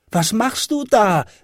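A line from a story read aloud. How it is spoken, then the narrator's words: Child calling upward. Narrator (German): rief der kleine Hävelmann hinauf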